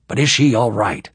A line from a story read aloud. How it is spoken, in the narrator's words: He said impatiently